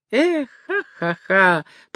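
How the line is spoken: Laughing. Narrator (Russian): смеялась хозяйка

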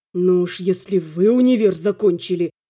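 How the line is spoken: Hissed through teeth. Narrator (Russian): прошипел сквозь зубы Эвин

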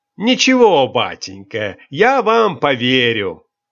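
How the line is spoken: Loud good-natured reply. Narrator (Russian): Добродушный штабс-капитан громко отвечал

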